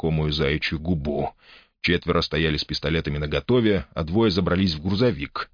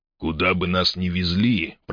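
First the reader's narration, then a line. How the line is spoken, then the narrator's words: Grumbled. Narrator (Russian): проворчал Джакс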